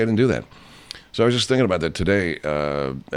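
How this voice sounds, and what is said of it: Usual voice. Nothing is said of it.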